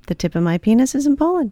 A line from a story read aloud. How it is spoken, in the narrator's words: Goldstein replies calmly